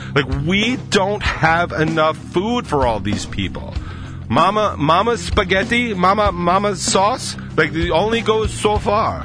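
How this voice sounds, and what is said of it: Put-on Italian accent. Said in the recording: “I'm going to go full Italian on you ... That's my Italian accent. ... It's about as good as it's gonna be.”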